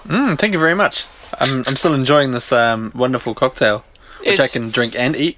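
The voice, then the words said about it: New Zealand accent. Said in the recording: “is from New Zealand. And, yeah, if you can't tell from his accent.”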